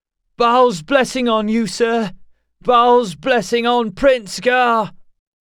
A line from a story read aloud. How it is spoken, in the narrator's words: The cry was taken up at once, shouted by Ulken and Doranan alike